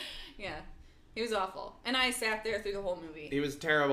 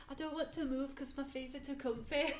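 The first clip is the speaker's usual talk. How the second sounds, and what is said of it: Imperfect put-on Manchester English accent. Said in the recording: “Maybe this isn't a perfect accent, but he was from Manchester, England.”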